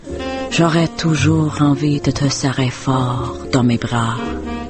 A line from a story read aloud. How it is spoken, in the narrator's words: his breath hot upon my neck, he murmurs